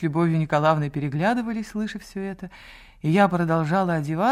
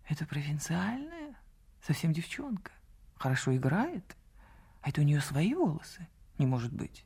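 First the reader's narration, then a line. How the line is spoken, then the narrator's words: Whispering. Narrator (Russian): до моего слуха долетел шепот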